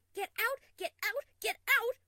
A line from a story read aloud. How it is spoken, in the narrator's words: She could hear herself half screaming